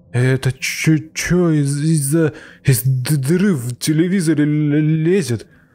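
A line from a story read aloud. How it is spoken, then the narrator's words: Stammering. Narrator (Russian): начал заикаться Макс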